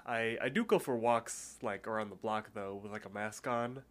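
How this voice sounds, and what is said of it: Stuffy, nasal congested voice. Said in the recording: “does my voice sound a little stuffy? It sounds like I'm talking with my nose plugged. ... It does.”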